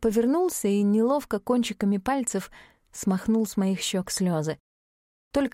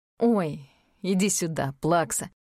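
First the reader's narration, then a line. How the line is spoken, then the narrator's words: Smirking. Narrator (Russian): хмыкнул Аид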